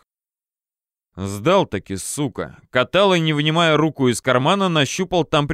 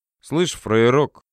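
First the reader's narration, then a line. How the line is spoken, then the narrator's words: Through clenched teeth. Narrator (Russian): процедил Катала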